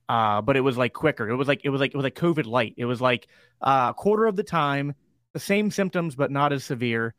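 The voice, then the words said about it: Slightly crackly voice. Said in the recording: “my voice is still a little crackly from it”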